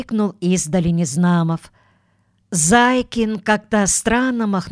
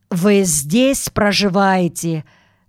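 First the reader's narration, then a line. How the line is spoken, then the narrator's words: Menacing question. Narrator (Russian): грозно спросил другой милиционер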